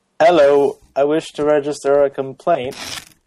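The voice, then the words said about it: Put-on accent reading a sketch. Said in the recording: “Do I have to do this with an accent? ... Yes, of course you do. ... Oh, I'm very bad at accents.”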